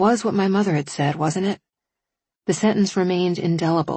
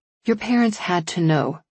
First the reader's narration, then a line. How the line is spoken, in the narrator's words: Kramer said